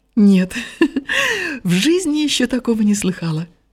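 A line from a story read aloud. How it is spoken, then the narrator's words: Laughing, sudden. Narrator (Russian): рассмеялась и вдруг сказала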